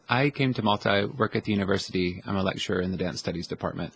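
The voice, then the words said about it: American accent. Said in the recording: “you have an American accent”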